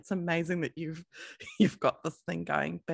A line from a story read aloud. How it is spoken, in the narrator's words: he just laughed and he said to me